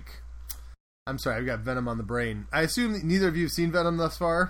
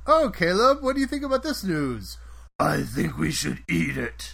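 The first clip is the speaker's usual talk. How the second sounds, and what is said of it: Gravelly monster character voice. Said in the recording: “Venom talk to myself ... that impression you just did ... Venom Cookie Monster”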